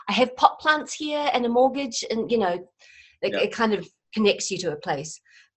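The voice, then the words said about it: New Zealand accent. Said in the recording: “I am a little bit foreign ... I'm from New Zealand originally ... you sound like you've just arrived”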